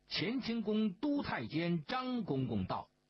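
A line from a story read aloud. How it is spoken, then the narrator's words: Loud announcement. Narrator (Chinese): 安图高声宣道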